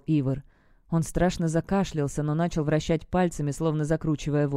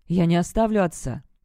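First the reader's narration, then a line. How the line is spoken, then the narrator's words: Snapped. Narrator (Russian): огрызнулся Барт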